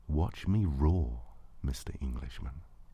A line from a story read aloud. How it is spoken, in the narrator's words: said so softly